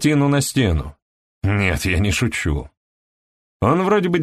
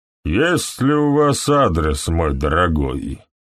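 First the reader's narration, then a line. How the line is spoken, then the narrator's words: Flat colorless question. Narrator (Russian): спросил он бесцветным голосом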